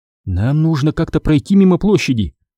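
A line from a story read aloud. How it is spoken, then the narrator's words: Bewildered. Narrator (Russian): растерянно произнесла Шева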